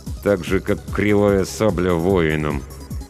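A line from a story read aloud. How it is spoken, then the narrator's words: Through gritted teeth. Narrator (Russian): добавил сквозь зубы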